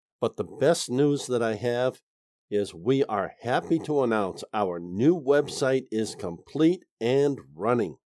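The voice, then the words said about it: Slightly altered, unwell-sounding voice. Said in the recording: “I am a little bit under the weather this week, so my voice is a bit different.”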